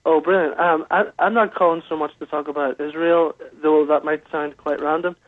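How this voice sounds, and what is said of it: Northern Irish accent. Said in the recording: “nice to hear your accent.”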